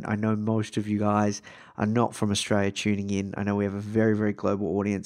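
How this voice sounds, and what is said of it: Australian accent, soothing voice. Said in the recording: “my soothing voice ... this Australian accent”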